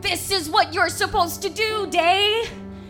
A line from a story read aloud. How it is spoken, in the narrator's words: screaming